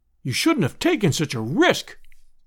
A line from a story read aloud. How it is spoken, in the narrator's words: we all cried